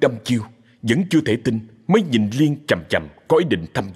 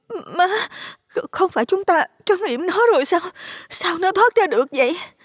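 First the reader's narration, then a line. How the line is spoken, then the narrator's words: Trembling, frightened. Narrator (Vietnamese): cô run rẩy nói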